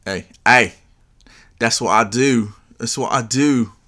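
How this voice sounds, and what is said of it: Put-on British accent. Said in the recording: “why did you say it in a British accent?”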